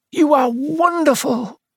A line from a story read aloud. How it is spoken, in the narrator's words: he cried